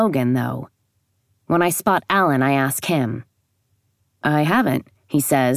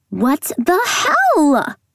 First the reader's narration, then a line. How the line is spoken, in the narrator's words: Her voice rising to a trill at the end